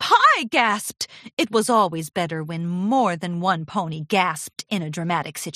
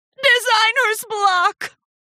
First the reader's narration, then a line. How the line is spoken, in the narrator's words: Charity gasped